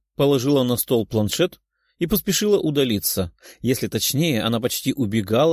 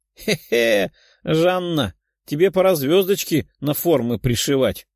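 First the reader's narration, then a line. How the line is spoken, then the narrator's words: Giggling young girl. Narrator (Russian): Хихикала 12-летняя девочка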